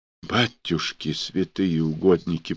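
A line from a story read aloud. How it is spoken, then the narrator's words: Whisper. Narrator (Russian): прошептала Тимофеевна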